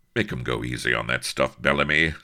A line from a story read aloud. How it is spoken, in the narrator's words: said Avery curtly